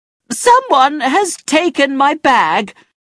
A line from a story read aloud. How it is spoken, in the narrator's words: she screamed